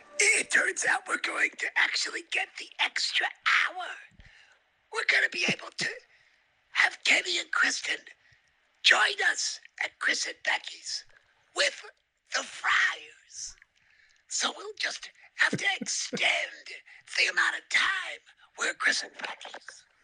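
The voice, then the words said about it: Imitates another person's voice. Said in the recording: “This is me impersonating my mom ... Post-stroke. ... This is after a stroke.”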